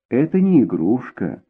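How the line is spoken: Softer repetition. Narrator (Russian): повторила она уже более мягким тоном

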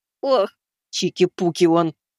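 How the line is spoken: Muttered through teeth, old woman. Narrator (Russian): процедила бабушка

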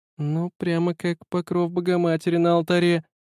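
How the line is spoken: Thin, sleepy drawl. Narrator (Russian): протянула она тоненьким сонным голоском

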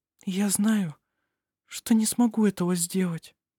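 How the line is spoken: Whispered. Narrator (Russian): прошептала она

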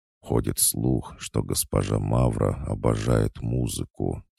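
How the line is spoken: Quiet answer. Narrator (Russian): тихо ответил Толик

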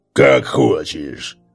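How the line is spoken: Cold. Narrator (Russian): холодно ответил Гарк

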